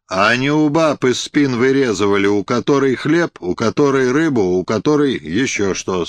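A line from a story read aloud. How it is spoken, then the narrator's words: Stern deacon. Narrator (Russian): сказал дьяк строго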